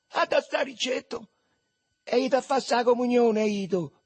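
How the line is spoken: Shouted. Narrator (Italian): gridò Marcello

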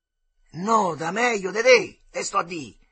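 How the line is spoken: Angry spitting shout. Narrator (Italian): gridava Armandino, rabbiosamente, sputando

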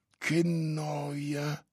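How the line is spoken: Whispered. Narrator (Italian): sussurrò

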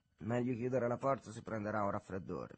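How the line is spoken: Jovial tone. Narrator (Italian): disse in tono gioviale

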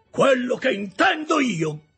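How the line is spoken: Shouting. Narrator (Italian): gridò Joe

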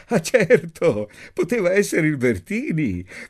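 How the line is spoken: Laughing. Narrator (Italian): disse Ada ridendo

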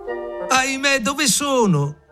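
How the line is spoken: Shouted. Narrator (Italian): gridò

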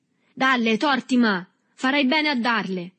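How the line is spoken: Scattered voices shouting. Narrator (Italian): gridarono da più parti varie voci

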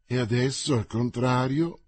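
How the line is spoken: Calm, curt voice. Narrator (Italian): disse Mordaunt con la sua voce calma e recisa

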